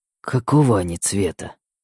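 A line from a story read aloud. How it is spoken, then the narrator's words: Sudden serious hoarse question. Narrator (Russian): вдруг серьезно спросил мой мужчина хриплым голосом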